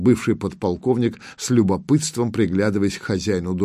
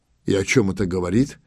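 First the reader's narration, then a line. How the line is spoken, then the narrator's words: Fatherly tone. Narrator (Russian): отеческим тоном осведомился Воробьев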